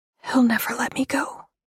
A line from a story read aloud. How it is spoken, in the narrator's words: She whispered